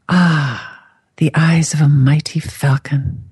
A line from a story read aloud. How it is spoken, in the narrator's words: she purred